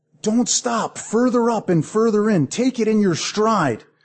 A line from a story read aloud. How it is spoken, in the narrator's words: But Jewel also cried out